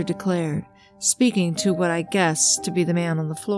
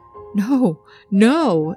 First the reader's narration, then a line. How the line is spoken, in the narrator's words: Eddie shouted back